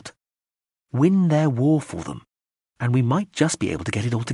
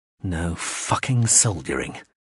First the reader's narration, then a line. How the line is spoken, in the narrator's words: he muttered to himself